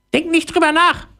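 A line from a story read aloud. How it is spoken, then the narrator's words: Call out. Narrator (German): ruft Theodora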